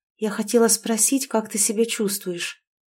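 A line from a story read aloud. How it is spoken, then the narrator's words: Quiet, timid answer. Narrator (Russian): тихо ответила Олеся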